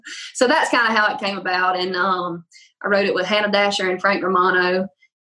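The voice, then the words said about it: Thick Louisiana Southern accent. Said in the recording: “you have such a thick accent ... I heard Louisiana”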